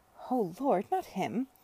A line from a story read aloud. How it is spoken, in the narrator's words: she said perfectly audibly